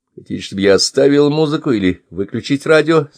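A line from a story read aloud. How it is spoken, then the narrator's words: Plain question. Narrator (Russian): спросил Сэм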